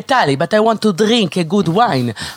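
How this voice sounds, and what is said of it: Put-on Italian accent in English. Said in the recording (Hebrew): “ממבטא איטלקי”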